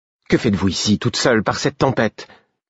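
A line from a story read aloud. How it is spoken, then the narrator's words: Curt, dry tone. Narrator (French): fis-je d'un ton sec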